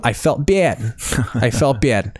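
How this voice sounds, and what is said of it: Put-on Chicago accent. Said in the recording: “I break out the Chicago accent”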